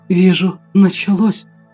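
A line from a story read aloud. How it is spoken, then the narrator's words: Whisper. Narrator (Russian): прошептала Мария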